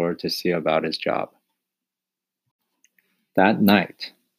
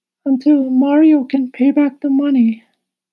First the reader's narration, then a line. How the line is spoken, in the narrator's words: sighed Chester